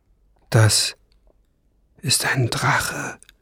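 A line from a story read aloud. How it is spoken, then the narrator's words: Whispered. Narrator (German): flüsterte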